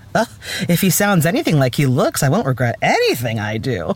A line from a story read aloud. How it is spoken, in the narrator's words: Julia Warwick purred